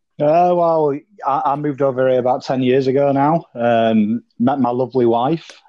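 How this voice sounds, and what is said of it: Speaks with a noticeable accent. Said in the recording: “I'm hearing an accent, and we're all about accents”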